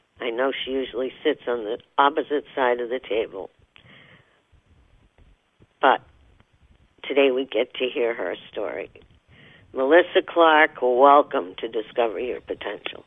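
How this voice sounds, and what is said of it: Slightly hoarse voice. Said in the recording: “A little hoarse today”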